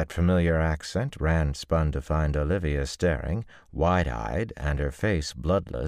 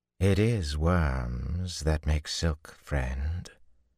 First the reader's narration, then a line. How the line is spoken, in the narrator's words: a man drawled behind him